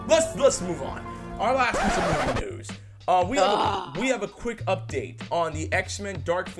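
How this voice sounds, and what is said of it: Usual voice. Nothing is said of it.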